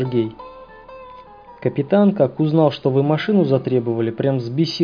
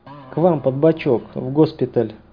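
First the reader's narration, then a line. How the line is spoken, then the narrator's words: Gloomy, dejected tone. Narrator (Russian): уныло произнес Хаус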